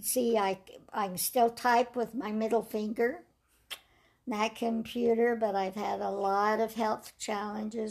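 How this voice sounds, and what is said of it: Raspy voice. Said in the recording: “damaged my vocal cord, so you can tell I've got a raspy voice now and I can't sing”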